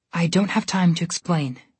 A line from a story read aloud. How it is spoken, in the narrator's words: she said softly